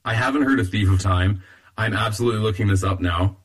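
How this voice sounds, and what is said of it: Hoarse, fading voice. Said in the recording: “I'm losing my voice a little bit.”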